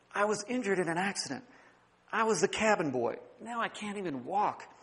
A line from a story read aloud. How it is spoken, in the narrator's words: The sailor whispered